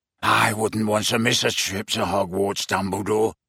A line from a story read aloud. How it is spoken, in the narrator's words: rasped Greyback